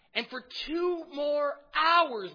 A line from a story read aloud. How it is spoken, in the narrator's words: they shout